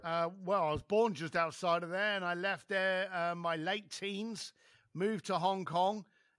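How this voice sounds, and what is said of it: East London accent. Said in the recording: “Where's the accent from? ... East London.”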